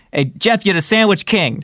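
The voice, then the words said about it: Bobby Flay impression, New York accent. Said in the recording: “Bobby Flay ... he's got that New York accent.”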